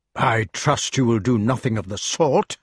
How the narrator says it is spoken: exclaimed Merlin instantly, in a stern and angry voice

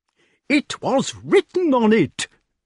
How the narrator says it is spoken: cried the king angrily

